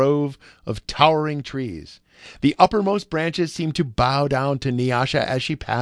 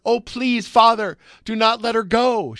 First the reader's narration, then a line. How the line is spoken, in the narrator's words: she cried hysterically